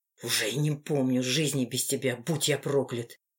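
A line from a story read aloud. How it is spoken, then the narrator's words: Muffled whisper through teeth. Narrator (Russian): прошептал сквозь зубы, утыкаясь носом в шею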